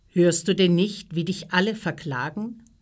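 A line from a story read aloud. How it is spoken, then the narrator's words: Plain question. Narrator (German): fragte Pilatus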